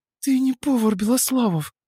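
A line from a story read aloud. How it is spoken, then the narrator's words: Breathed out. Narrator (Russian): выдохнула она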